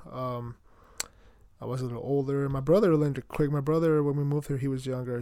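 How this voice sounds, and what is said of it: Light Mexican-accented English. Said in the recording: “I pretty much grew up in Mexico, so if I do have an accent, I'm sorry. I try to not make it super heavy accent. I'm not faking it. ... sometimes my accent comes through ... I'm Mexican”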